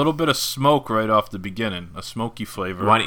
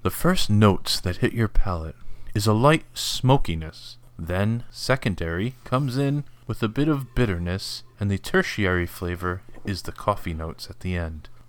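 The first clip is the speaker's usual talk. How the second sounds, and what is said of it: NPR radio announcer voice. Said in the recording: “you do your NPR voice?”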